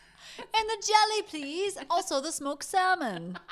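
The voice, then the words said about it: A terrible put-on foreign accent. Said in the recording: “I don't know what accent that was, but it was terrible. ... That was not Polish.”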